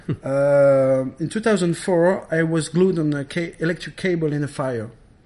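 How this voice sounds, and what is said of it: Non-native English accent. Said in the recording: “Sorry for my English, my accents”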